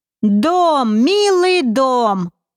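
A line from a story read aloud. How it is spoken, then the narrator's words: Pleased, very loud. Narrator (Russian): Комбинатор довольно и очень громко произнес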